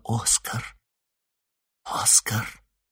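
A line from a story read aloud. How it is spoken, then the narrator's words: Whisper. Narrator (Russian): Элли прошептала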